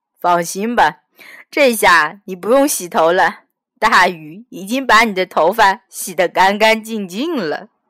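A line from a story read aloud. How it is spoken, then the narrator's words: Cheerful comforting. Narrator (Chinese): 老庙笑嘻嘻地安慰他说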